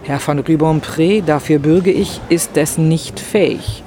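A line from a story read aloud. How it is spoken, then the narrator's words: Plain. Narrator (German): sagte Rastignac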